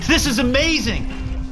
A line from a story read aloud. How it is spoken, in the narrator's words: Kenny shouted